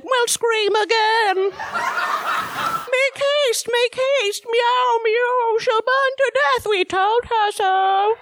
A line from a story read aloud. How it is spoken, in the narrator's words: They screamed for help, then they said